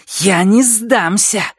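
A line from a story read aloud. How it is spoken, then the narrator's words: Hiss. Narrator (Russian): зашипела она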